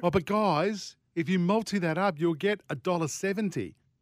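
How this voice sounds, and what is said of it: Imitates another person's voice. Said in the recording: “That was my impersonation... not good”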